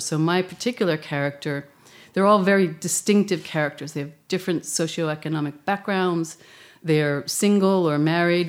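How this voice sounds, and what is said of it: American accent. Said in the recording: “as you can tell by my accent, I'm from the United States”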